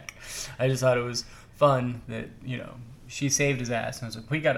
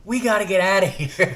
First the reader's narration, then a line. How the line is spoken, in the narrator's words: she just yells